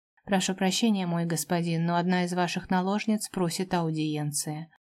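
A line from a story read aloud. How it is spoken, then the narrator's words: Indifferent tone. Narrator (Russian): произнес безразличным тоном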